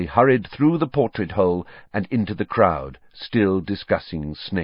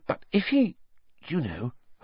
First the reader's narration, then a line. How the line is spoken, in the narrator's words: Hermione dropped her voice